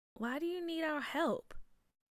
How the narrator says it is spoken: Bria whispered

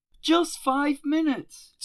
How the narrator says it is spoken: Terry pleaded

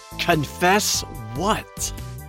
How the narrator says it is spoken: snarled like a wolverine

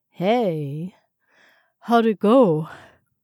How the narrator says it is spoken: he asked sleepily

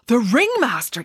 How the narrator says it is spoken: exclaimed Michael

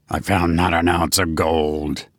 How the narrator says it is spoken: he growled

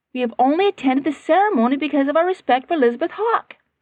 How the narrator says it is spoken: her mother said impatiently

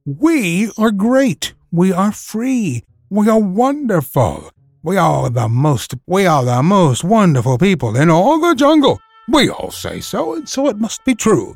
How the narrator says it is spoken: shouted

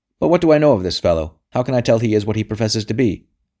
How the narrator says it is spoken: barked Sir Amyas

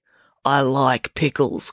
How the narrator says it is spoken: growled the chef

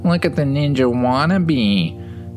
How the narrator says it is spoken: they would taunt, their laughs echoing

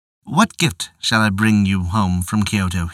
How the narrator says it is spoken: he said

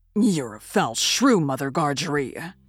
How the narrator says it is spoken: growled the journeyman

